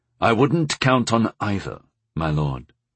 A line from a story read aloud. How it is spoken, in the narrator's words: I said quietly